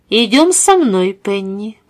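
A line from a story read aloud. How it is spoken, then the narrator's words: Calm. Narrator (Russian): произнесла миссис Смит спокойно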